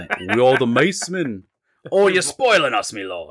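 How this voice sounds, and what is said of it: Put-on British accent. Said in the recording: “in British accent. So he wants me to do a British accent ... I'm so bad at accents ... that's how I get into the accent”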